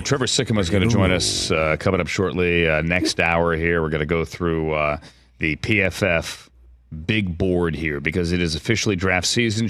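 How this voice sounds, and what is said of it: Congested, deeper voice. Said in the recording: “Do I sound congested? I do, don't I? ... you always have a deep voice ... A little deeper. ... I definitely sound congested ... It does get a little deeper.”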